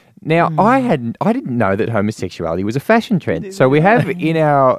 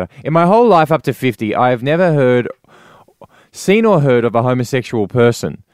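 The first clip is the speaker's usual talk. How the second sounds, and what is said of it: Bob Katter impression. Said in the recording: “maybe you need to put on an accent. ... I'll do my Bob Catter. Yeah, I can't really do Bob Catter.”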